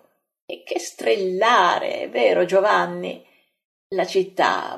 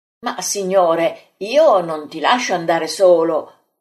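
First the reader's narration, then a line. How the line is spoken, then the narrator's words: Man exclaiming. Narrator (Italian): esclama l'Iscariota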